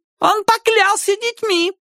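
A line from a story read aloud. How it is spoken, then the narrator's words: Shrill woman's voice. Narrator (Russian): визгливо сказала женщина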